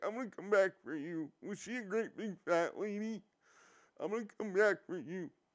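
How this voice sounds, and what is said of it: Crying, creepy character voice. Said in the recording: “He sounds like Buffalo Bill crying... in my impression”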